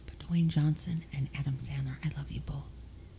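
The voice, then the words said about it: Whispering. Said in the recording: “That's why I was whispering.”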